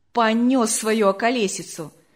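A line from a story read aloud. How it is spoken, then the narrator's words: Said fairly loudly. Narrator (Russian): сказал довольно громко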